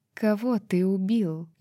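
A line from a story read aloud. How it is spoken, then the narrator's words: Barely audible question. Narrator (Russian): едва слышно спросила Джазиба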